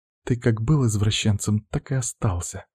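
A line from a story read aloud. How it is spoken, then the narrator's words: Muttered against lips. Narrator (Russian): бормочет она мне в губы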